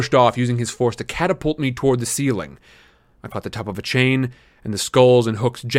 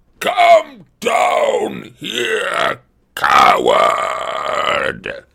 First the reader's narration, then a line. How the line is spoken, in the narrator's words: Antaeus bellowed